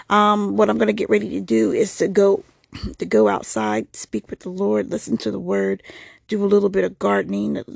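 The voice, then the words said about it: Slightly sick-sounding voice. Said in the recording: “If you can hear it in my voice, I am getting a little bit of sick”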